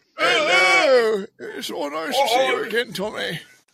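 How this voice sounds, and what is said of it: British man doing Bane-like voice. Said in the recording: “trying to do like an old Jewish man who's like impersonating Bane ... Alfie Solomon's accent ... it's a British guy pretending to be Bane”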